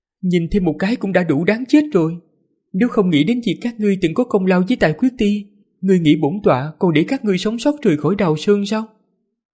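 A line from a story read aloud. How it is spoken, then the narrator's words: Smiling voice. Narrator (Vietnamese): Diệp Hồng Ngư mỉm cười nói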